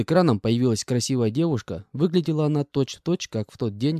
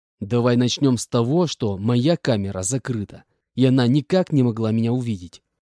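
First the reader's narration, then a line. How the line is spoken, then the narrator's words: Angry hiss. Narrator (Russian): Злобно прошипел я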